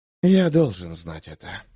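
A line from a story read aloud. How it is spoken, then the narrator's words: Quiet exhale. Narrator (Russian): выдохнул он тихо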